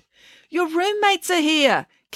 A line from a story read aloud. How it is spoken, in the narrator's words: Kate yelled through the door